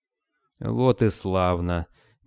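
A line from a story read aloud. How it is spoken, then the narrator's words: Soft, gentle. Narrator (Russian): мягко сказал князь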